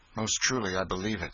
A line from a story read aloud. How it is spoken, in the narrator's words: said Miles bitterly